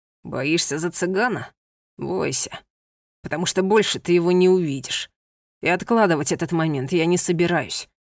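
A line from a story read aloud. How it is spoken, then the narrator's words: Menacing. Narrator (Russian): грозно произнес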